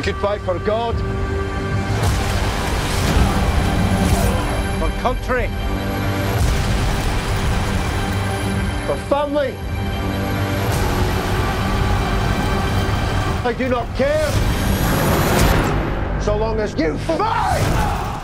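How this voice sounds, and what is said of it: Scottish accent. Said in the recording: “doing a Scottish accent”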